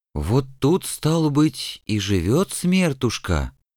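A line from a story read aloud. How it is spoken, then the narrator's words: Heavy exhale. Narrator (Russian): тяжело выдохнул кто-то из дружинников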